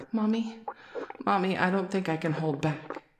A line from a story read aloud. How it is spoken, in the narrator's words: You whimper